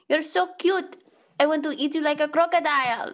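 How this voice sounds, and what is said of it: Put-on accent. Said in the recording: “I can do the accent.”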